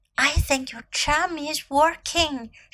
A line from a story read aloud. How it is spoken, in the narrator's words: she whispered to Gracie